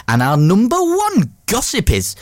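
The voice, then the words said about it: Put-on Geordie accent. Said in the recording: “Why do I sometimes do a Geordie accent when I'm doing that?”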